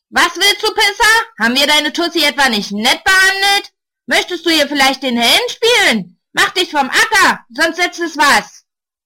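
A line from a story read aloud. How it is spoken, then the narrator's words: Shout. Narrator (German): Einer brüllt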